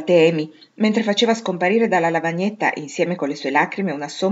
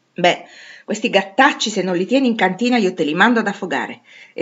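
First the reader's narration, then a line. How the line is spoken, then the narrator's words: Irritated exclamation. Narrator (Italian): esclamò Meg, irritata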